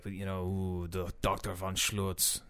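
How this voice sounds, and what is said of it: Put-on German accent. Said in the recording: “I'm still trying to talk with this German accent.”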